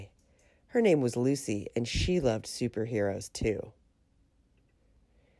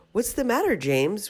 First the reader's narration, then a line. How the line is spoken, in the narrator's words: we all cried out